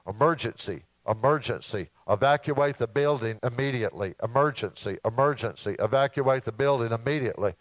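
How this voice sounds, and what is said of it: Put-on British accent, announcer voice. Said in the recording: “this recorded voice coming over the PA system ... saying, in a British accent”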